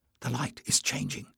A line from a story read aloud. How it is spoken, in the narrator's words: Jasmine whispered